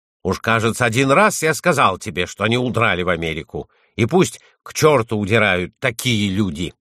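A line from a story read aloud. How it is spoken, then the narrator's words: Irritated shout. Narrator (Russian): Хюверинин с раздражением крикнул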